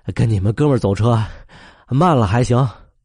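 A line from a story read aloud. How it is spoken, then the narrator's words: Breathless reply. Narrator (Chinese): 他喘着答了句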